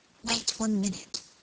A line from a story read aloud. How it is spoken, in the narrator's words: said Margaret, whispering always